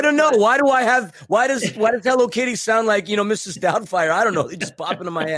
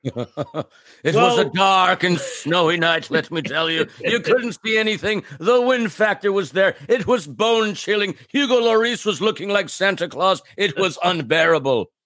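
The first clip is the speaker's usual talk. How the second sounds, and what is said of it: Put-on storytelling accent. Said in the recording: “What accent is that? I love it. ... It's definitely not Tomas Angel or David Martinez's accent ... it would be more Tomas than David”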